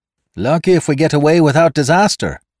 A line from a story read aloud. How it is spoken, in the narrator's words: shouted